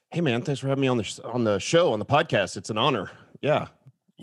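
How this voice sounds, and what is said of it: Smooth broadcaster-style radio voice. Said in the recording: “you have a really good radio voice”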